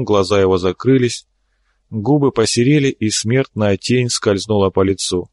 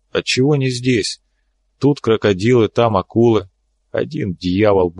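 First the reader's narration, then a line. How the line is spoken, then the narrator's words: Grumble. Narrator (Russian): буркнул Тек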